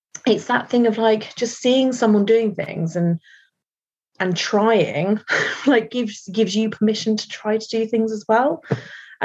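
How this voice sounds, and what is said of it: Surrey English accent, somewhat posh. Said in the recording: “I know I've got a Surrey accent, so it does make me sound a bit posh”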